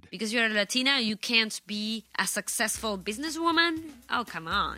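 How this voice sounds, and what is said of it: Argentine Spanish accent in English. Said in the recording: “This actress from Argentina has a coach to help Americanize her accent ... Spanish accents”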